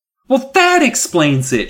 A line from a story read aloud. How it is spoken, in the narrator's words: she cried